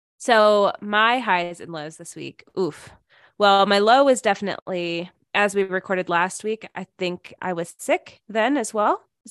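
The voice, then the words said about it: Slightly raspy, hoarse voice. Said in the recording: “as you can still hear in my voice, it's still a little raspy and weird”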